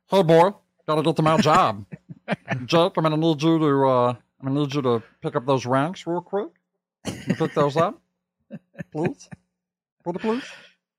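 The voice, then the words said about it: Cartoon character voice impression. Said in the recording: “my number one impression, at least I think in the world, is my Meatwad impression ... What would you grade my meat wad?”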